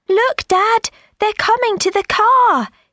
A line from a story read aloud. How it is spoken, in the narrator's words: he cried